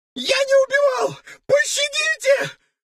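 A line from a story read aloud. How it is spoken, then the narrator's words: Terrified sobbing plea. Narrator (Russian): в ужасе рыдал лейтенант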